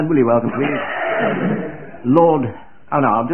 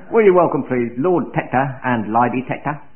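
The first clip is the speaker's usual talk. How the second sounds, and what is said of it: Cockney accent. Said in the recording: “I'll do this in a Cockney accent”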